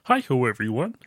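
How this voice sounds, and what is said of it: Bad Kermit the Frog impression. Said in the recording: “That was a bad Kermit impression”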